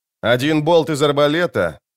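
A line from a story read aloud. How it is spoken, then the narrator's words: Loud warning. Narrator (Russian): громко предостерег на всякий случай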